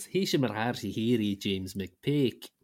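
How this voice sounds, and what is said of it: Mock Gaelic commentator voice. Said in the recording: “my impression ... half Gaelic, half Scottish commentary”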